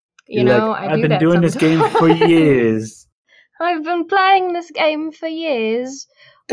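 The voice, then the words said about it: Put-on English accent. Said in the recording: “you suddenly went into like an English accent”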